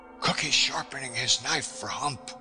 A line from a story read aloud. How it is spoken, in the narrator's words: was being whispered